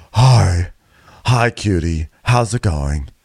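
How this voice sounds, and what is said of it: Impression of Rachel Fuda, exhausted-sounding. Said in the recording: “That was my impersonation of Rachel being bereft and exhausted from drama.”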